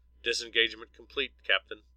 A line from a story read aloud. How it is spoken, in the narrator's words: Larry answered